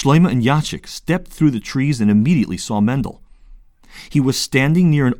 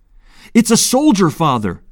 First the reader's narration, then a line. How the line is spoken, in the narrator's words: he shouted